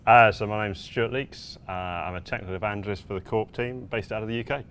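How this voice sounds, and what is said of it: British accent. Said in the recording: “Oh, is that why you have the fun accent?”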